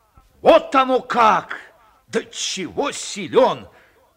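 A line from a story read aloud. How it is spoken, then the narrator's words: Joyful shout, old man. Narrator (Russian): радостно выкрикнул дед Потап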